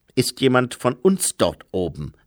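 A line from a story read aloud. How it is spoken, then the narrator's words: Plain. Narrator (German): fragte sie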